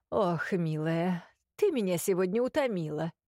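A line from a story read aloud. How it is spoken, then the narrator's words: Tired declaration. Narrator (Russian): заявил устало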